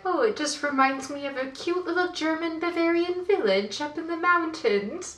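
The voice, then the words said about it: Put-on British accent. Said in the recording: “But now I have a British accent. I don't know why. ... Oh, but you just became British when you became Heidi.”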